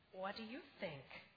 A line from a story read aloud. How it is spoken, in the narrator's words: Grandpa gently asked the children